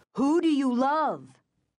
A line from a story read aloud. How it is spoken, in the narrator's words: cried again, louder now, more insistent